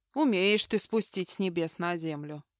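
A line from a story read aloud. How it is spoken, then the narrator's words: Mock-gloomy grumble. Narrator (Russian): с напускным унынием пробурчала Аврора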